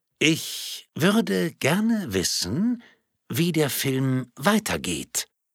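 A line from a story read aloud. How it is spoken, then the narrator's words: Calm but more emphatic. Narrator (German): wiederholte sie mit weiterhin ruhiger Stimme, nun allerdings mit etwas mehr Nachdruck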